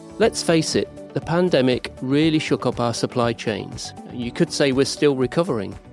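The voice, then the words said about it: British accent. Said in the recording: “this British accent”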